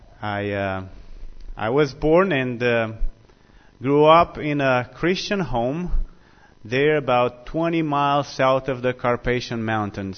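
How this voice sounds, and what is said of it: Romanian accent. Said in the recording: “My accent betrays me. ... I am from the South of Romania.”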